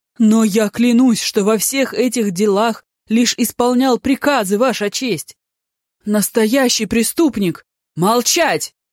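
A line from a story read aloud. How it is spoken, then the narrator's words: Thunderous interruption. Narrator (Russian): Громовым голосом прервал его судья Ди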